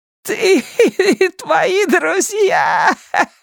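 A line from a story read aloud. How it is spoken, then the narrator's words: Witch shouting while laughing. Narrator (Russian): смеясь, кричала ведьма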